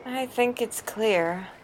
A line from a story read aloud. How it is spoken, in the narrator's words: groaned